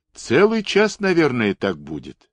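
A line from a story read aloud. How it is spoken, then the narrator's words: Calm, yawning. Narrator (Russian): спокойно ответил командир эскадрона, захлебываясь сладостной позевотой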